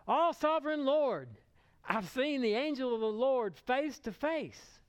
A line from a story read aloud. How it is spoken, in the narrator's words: he exclaimed